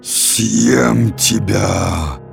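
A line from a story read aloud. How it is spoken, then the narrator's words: Growling. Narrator (Russian): прорычал он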